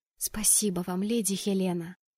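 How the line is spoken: Whisper. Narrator (Russian): прошептала я ей

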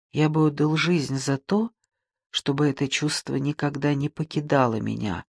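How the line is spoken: Whisper. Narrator (Russian): шепнул он

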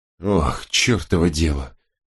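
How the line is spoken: Weary. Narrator (Russian): устало сказал третий лейтенант Ирвинг

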